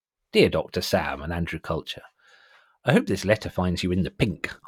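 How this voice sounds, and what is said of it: Put-on character voice reading letter. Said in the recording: “I'm going to try and put on an appropriate voice.”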